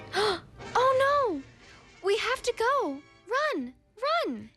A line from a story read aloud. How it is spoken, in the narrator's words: shouted the city mouse